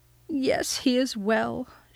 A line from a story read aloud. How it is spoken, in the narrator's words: she sobbed